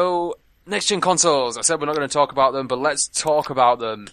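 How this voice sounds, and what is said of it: Usual voice. Nothing is said of it.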